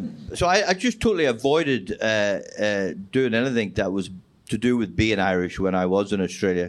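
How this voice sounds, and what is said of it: Strong Northern Irish accent. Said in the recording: “I've got the strong Northern Ireland accent”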